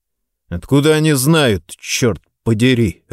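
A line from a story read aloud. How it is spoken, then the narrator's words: Irritated, mouth full. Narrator (Russian): раздраженно бросил я, запихивая в рот кусочек остывшей котлеты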